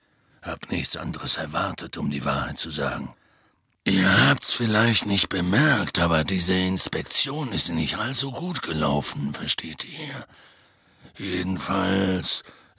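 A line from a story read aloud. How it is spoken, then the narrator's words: Heavy sigh. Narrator (German): seufzte er schwer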